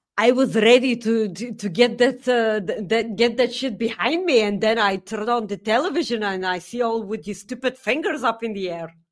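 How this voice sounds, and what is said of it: Attempted Scottish accent. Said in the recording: “I don't know what accent that was ... To do a Scottish accent. ... I was pretty close.”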